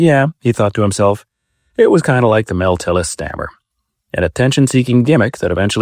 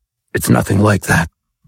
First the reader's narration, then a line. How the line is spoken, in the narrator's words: wheezed as menacingly as possible